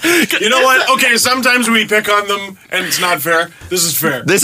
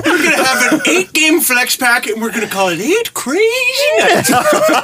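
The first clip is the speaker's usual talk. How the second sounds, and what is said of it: Imitates another person's voice. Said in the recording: “my Adam Sandler impression is just Jimmy Fallon's.”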